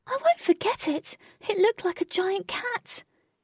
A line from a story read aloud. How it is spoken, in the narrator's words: Jane managed to say between gasps